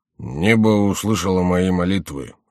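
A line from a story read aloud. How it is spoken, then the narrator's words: Grumbling monk. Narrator (Russian): ворчал монах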